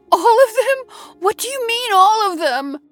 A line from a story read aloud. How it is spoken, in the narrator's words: She cried in horror through her tears